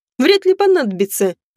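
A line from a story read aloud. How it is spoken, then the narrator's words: Laughing. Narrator (Russian): рассмеялась я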